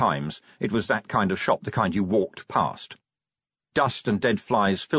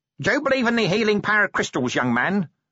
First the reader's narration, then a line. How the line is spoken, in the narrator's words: snapped the woman